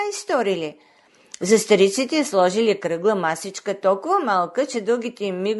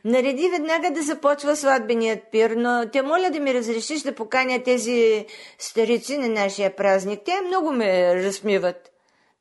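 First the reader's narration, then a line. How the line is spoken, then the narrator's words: Laughing exclamation. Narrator (Bulgarian): Тя се засмяла и възкликнала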